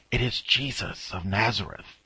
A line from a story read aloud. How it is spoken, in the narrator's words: you hear someone whisper